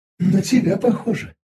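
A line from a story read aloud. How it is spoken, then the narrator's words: Frightened mutter. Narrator (Russian): испуганно пробормотала питомица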